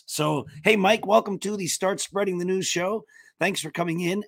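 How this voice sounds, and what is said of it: Hoarse, fading voice. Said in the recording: “as you can hear, I probably need a doctor ... I'm losing my voice ... I'm losing my voice”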